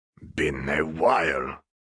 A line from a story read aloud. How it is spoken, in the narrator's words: he grunted